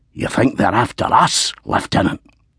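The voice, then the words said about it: Scottish brogue. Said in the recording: “The words were dispensed in a distinctive Scottish brogue.”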